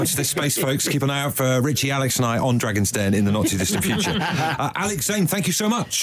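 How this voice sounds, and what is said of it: Usual voice. Nothing is said of it.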